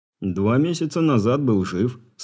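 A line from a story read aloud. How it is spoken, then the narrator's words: Calm reply. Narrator (Russian): спокойно ответил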